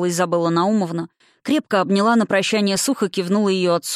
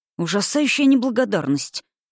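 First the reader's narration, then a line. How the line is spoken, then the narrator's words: Muttered through teeth. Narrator (Russian): процедил папа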